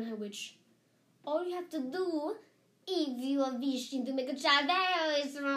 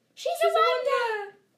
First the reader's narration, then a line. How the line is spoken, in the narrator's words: cried the audience